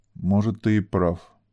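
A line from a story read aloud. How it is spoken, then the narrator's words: Restrained indignant mutter. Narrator (Russian): пробормотал он, справившись с волной праведного негодования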